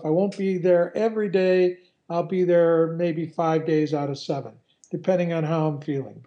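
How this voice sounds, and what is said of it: Hoarse, fading voice. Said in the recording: “You can hear I'm losing my voice still.”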